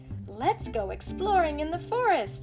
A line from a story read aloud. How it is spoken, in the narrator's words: he said eagerly